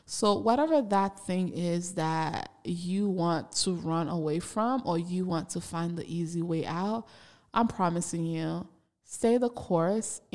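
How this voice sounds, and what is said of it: Speaks with a noticeable accent. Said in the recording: “Yes, I still have an accent.”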